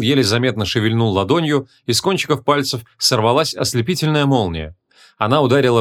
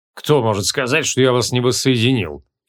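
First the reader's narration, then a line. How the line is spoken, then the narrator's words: Snorting. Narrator (Russian): фыркнул он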